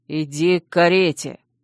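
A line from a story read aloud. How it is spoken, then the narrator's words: Hissed. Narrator (Russian): прошипел Чейз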